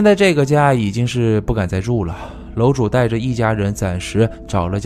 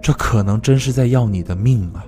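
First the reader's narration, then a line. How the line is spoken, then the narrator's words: Sighing master. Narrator (Chinese): 师傅叹了一口气，于是就说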